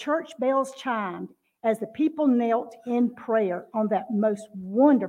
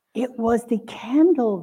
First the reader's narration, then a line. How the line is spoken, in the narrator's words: they whispered